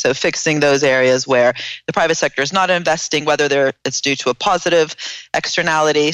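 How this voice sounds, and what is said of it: American accent. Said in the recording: “I sound American, but I'm Italian”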